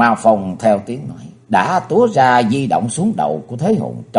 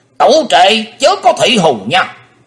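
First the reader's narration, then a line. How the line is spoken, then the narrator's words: Thunderous echoing scream. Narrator (Vietnamese): Lý Ngư thủy thủ tiếng dội vào tràn miệng thét lên như sóng lở sườn non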